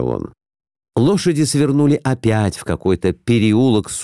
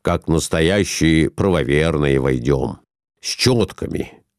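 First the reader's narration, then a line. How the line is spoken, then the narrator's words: Plain. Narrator (Russian): сказал он жене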